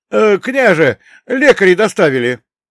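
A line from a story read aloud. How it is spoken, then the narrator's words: Joyful shout. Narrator (Russian): Радостно выкрикнул один из стрельцов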